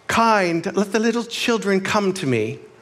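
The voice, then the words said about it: Put-on English accent. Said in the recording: “I do that with an English accent”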